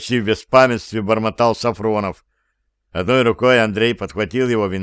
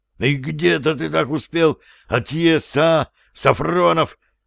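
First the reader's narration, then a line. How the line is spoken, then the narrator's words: Strained hoarse wheeze. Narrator (Russian): Напрягаясь изо всех сил, прохрипел Андрей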